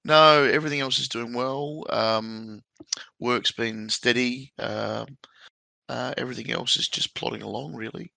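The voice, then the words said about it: Voice not normal, husky-sounding. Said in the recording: “The voice is still not back to normal ... my sexy voice”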